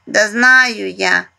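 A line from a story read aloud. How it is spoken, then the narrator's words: Burred, rolled-r speech. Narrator (Russian): прокартавил Мишка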